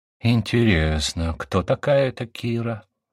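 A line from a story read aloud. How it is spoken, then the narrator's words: Muttered. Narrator (Russian): пробормотал я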